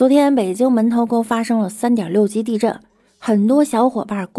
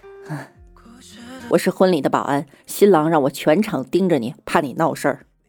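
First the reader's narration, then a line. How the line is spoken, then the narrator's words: Shy smile. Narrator (Chinese): 他腼腆一笑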